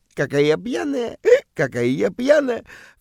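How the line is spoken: Coquettish giggling. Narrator (Russian): кокетливо хихикает

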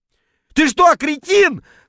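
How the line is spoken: Yelling while spluttering. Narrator (Russian): вопил я на поверхности, шумно отплевываясь

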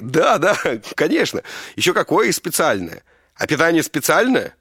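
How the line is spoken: Bosses snorting wryly. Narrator (Russian): начальники, хмыкнули

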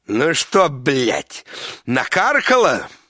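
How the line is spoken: Drunk angry shouting. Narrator (Russian): пьянющий муж и злобно кричит

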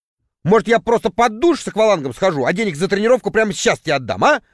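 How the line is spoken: Irritated. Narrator (Russian): раздраженно заметил я

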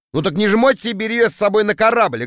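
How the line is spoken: Snapping retort. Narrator (Russian): огрызнулся я

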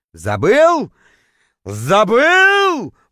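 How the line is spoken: Roaring howl. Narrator (Russian): взревел, точнее, даже завыл я

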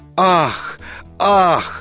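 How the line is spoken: Collective gasp. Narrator (Russian): Стол дружно выдохнул

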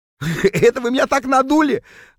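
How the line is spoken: Loud laughter. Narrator (Russian): захохотал Норберт, когда, наконец, понял, в чем дело

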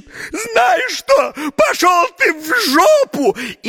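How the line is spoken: Sudden shout. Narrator (Russian): как закричит

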